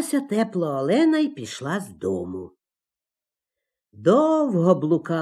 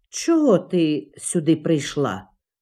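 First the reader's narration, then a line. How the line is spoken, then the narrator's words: Stern question, icy moon. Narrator (Ukrainian): суворо запитав її крижаний місяць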